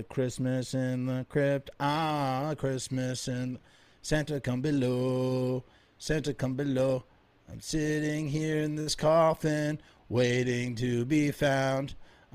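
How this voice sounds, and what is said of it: Sung imitation of another person's voice. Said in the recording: “I'm trying to do my best Dee Dee Ramone impression. ... it's kind of atrocious”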